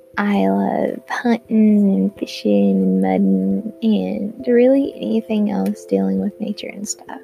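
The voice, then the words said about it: Country accent. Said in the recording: “I'm a country girl. I get told this by so many people just because of my accent”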